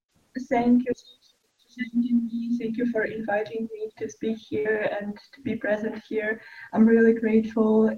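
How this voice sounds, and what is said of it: Quiet, low-volume voice. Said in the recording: “can you speak a bit louder? Only because your voice is a bit low”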